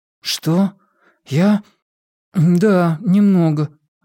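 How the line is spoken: Strained, forced out. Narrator (Russian): выдавил Уайлен

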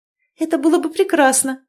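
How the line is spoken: Exclamation. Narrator (Russian): воскликнула Цветана

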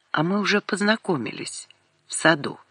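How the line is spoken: Quiet. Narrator (Russian): Лиска тихо ответила

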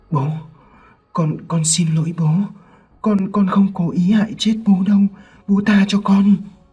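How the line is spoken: Frightened trembling child. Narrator (Vietnamese): Thằng Sinh sợ hãi run rẩy nói

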